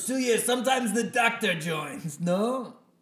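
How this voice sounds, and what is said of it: Speaks in a put-on accent. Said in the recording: “is this an accent thing? ... No, it's an accent thing ... never do this accent again”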